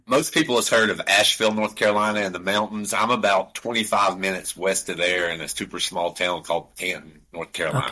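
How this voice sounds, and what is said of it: Appalachian accent. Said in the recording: “The Appalachian Mountains, as you can tell by the accent ... I love the accent. ... It's amazing.”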